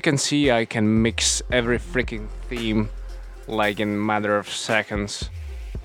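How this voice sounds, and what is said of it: Canadian-influenced English accent. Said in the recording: “I lived in Canada for 1.5 years, that's why this accent”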